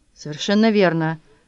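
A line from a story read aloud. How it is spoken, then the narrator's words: Breathless with terror. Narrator (Russian): выдохнул, парализованный ужасом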